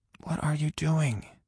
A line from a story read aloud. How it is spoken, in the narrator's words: I whispered